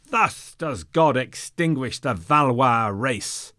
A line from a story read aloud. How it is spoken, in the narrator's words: simultaneously, they all cried